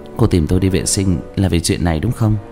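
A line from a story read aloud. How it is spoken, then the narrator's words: Soft laugh. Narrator (Vietnamese): nhẹ nhàng cười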